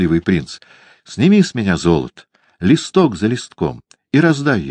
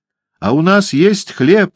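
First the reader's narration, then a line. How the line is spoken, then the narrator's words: Group shouting. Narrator (Russian): кричали они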